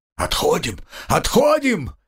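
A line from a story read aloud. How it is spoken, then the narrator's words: Shout. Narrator (Russian): закричал Эргуран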